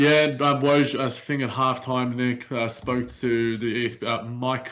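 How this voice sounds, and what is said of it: Usual voice. Nothing is said of it.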